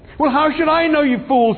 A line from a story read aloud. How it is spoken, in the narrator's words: shouted Ford